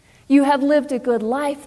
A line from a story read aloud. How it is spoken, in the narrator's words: they exclaimed